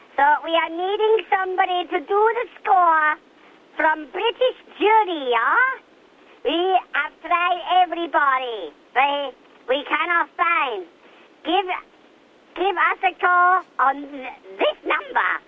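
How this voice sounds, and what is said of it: Wavering fake foreign accent. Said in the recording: “That accent was wavering all over the place. It's spanning continents, wasn't it? ... it went a bit Mexican for a while, which, of course, is not in Europe”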